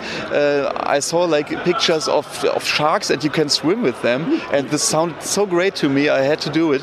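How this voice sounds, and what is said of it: German accent. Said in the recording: “trip back to Germany ... I love your accent”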